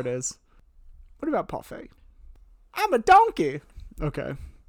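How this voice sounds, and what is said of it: Poor imitation of another person's voice. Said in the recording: “That was a terrible impression... an Eddie Murphy impression”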